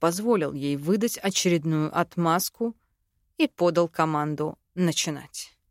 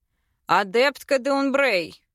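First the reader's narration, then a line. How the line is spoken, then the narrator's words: Loud. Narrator (Russian): сказал громко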